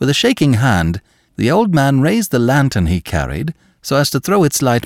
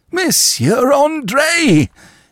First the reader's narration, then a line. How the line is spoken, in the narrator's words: he cried